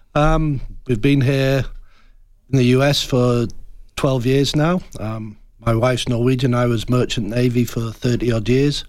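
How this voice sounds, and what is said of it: Northern English Yorkshire accent. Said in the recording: “I wanted an accent like yours ... North of England, Yorkshire, to be precise ... They don't use our accent. So everybody thinks I'm either an Australian or a Kiwi.”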